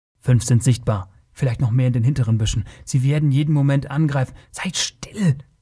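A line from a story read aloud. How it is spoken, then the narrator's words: Hissed warning. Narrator (German): zischte Taurus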